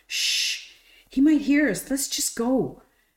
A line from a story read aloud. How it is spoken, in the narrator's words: began more loudly this time